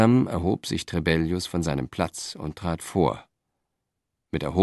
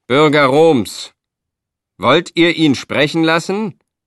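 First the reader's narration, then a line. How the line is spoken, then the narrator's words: Contemptuous roar to crowd. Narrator (German): voller Verachtung und brüllte dann in die Menge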